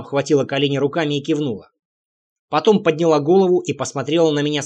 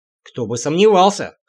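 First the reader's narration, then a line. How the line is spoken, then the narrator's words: Skeptical snort. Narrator (Russian): хмыкнул я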